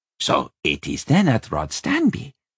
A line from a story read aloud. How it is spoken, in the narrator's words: Benebik said excitedly from the corner